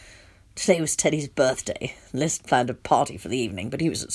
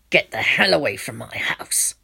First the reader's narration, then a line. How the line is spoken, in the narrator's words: I snarled